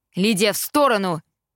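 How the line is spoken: Shouting father. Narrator (Russian): закричал папа

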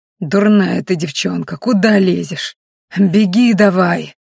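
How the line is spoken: Hissing. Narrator (Russian): шипел господин Ахрелий

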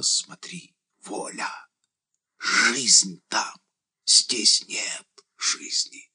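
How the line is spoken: Halting, eager whisper. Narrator (Russian): шептал сбивчиво и как-то жадно

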